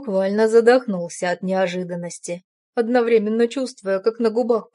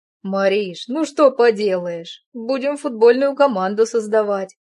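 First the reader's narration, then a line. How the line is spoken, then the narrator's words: Loud laughter. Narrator (Russian): Расхохотался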